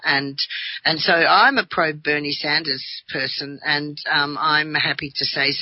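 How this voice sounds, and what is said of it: Australian accent. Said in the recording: “Australia, which is, you know, you can tell by my voice, that's where I come from.”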